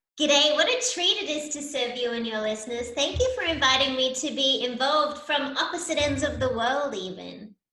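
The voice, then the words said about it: Australian accent. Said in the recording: “you can tell from my accent that I'm from Australia”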